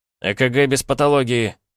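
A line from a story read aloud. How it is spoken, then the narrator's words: Unrestrained bark. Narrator (Russian): уже не сдерживаясь, рявкнул я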